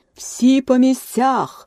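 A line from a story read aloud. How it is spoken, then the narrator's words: Thunderous shout, queen. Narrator (Ukrainian): громовим голосом закричала королева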